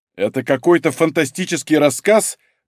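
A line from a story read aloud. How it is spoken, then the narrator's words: Bark. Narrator (Russian): гаркнул Малинин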